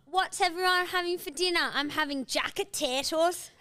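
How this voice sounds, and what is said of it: Exaggerated British accent. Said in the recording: “hectic British accents ... this accent”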